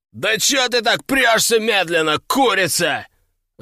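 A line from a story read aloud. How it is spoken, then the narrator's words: Young man yelling. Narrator (Russian): заорал парень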